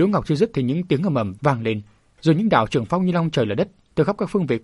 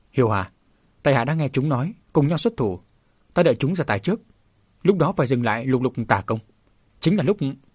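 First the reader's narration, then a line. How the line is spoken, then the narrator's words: Gentle persuasion. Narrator (Vietnamese): Đỗ Ngọc nhẹ nhàng khuyên nhủ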